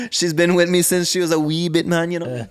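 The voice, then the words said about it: Mixed Jamaican-Irish put-on accent. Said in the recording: “That's my Jamaican Ireland accent”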